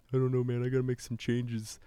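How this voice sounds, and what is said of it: Impression of a friend. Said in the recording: “That's a pretty good Dandy Andy impression.”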